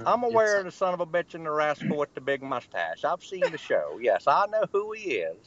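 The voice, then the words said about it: Southern US accent. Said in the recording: “Zebediah Coulter is who you sound like right now from the fucking WWF ... Southern people sound alike ... just because I got an accent”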